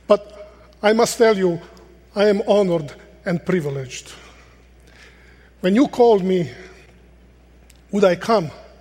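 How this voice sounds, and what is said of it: Speaks with a foreign accent. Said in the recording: “you missed my accent”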